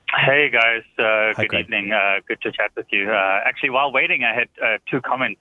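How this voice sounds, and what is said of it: South African accent. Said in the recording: “He's got a great accent ... he's got a really good accent ... Is that South African? ... It is actually South African.”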